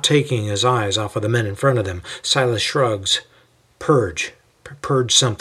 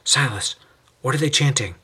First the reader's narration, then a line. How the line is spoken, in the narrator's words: Timothy leans over to whisper and asks